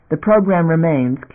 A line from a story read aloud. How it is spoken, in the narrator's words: Q interrupted coldly